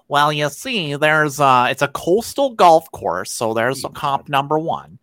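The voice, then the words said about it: Put-on nerdy voice. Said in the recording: “I'm not imitating anyone right there. That was just me doing my nerd voice. ... That's the nerd podcaster guy.”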